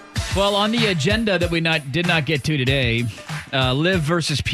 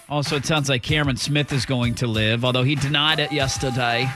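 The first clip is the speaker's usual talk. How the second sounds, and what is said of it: Put-on Australian accent. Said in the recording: “That was my Australian accent.”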